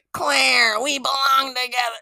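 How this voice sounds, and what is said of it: Bad imitation of a creepy doll voice. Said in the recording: “doing a terrible Chucky impression... he sounds like, I don't know, like a 20-year-old, like, teenage person impersonating Chucky”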